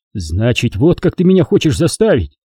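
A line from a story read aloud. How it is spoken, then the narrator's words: Exclaimed. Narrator (Russian): воскликнул Лиет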